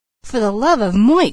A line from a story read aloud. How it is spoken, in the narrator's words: she cried